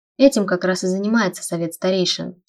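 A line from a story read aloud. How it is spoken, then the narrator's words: Mumbling with full mouth. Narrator (Russian): с набитым ртом пробормотал Вейлор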